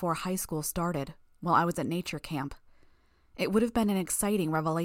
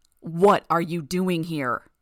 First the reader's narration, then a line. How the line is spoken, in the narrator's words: He roared the words to my face